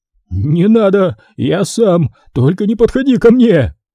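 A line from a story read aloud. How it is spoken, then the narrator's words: Wretched yell. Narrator (Russian): Завопил несчастный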